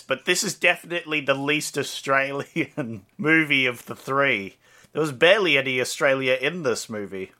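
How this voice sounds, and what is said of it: Put-on Australian accent. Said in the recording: “I'd like to stay in my Australian voice”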